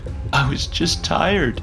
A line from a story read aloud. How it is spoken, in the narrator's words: groaned